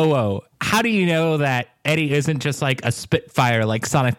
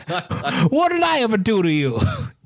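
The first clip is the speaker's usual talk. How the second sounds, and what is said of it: Put-on New York accent. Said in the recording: “Just deep Philly accent, just going... Which is a New York accent. I can't do a Philly accent.”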